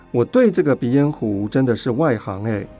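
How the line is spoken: Laughing. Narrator (Chinese): 夏宗玉笑说

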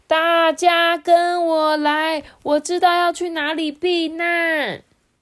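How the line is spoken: Shouting. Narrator (Chinese): 黑乌龟就大喊说

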